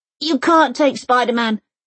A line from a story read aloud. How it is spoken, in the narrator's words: shouted the boy